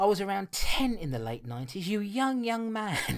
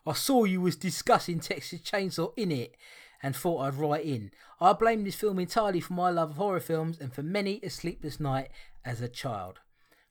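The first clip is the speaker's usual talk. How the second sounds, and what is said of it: Put-on Cockney accent. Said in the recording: “Turn the Cockney accent off.”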